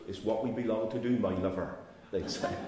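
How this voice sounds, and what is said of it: Broad Cornish accent. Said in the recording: “they said it with a real broad accent”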